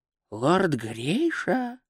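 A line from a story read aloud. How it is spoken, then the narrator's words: Old man whispering. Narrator (Russian): прошептал старый хранитель традиций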